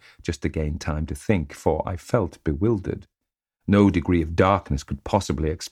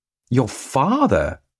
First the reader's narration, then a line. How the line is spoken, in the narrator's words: I gasped